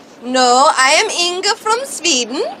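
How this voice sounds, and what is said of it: Put-on Swedish accent. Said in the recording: “had no idea how to do an Austrian accent. She could only do a Swedish accent.”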